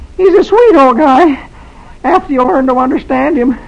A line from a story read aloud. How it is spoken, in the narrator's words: Dagwood gives a crooked smile and says weakly